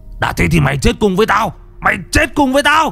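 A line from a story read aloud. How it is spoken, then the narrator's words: Howling scream. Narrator (Vietnamese): Chánh Khoan rú lên một tiếng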